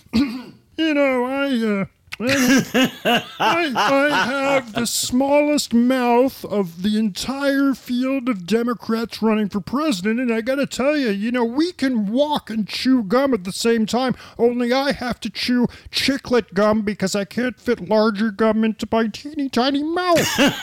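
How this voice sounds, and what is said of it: Impression of Michael Bennett. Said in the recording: “Michael Bennett, of course, is my favorite new impression to do.”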